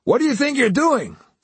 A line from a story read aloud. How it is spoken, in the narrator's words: A man who might have been the manager came out of the pharmacy, yelling